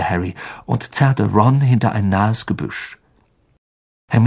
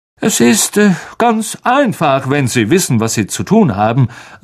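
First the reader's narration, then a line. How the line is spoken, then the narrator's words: Loud voice. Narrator (German): sagte Lockhart mit lauter Stimme zu Hagrid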